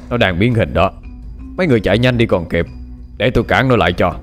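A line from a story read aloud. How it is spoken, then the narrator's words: Cold. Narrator (Vietnamese): Tấn Hành lạnh lùng nói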